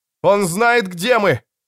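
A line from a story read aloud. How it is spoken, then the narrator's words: Desperate shout. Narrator (Russian): отчаянно закричал Расси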